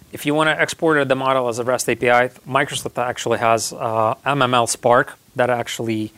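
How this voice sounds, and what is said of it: Strained, hoarse voice. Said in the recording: “losing my voice.”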